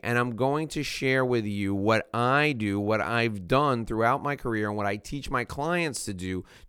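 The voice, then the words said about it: Hoarse, scratchy voice. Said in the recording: “My voice is a little scraggly today... whatever voice I have left”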